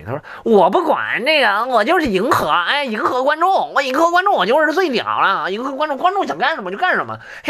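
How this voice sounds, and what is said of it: Imitating 童漠男 with Beijing accent. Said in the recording (Chinese): “我学一下童漠男北京口音 ... 北京口音学的怎么样？”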